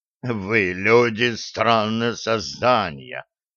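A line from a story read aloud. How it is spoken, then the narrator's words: Deep guttural growl. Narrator (Russian): утробно прорычал гигантский клубень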